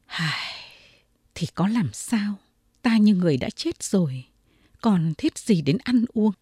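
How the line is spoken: Sighing lament. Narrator (Vietnamese): Võ tài nhân thở dài, nói như một lời than thân

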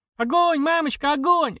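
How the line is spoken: Small child's joyful shout. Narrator (Russian): радостно кричал крохотный Такэси

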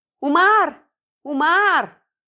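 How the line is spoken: Loud, halting child's voice. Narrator (Russian): мальчишка лет 7-8 стал громко, сбивчиво что-то говорить

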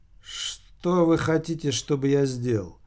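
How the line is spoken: Plain. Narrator (Russian): спросил он

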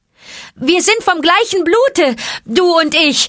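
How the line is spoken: Quick snake call. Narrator (German): rief Mowgli schnell, den Schlangenruf gebend

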